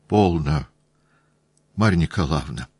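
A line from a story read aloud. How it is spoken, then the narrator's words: Quiet, self-justifying husband. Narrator (Russian): тихим голосом обратился муж к жене, очевидно, для того только, чтобы оправдаться пред посторонним человеком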